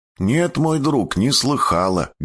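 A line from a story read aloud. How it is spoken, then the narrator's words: Plain. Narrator (Russian): говорит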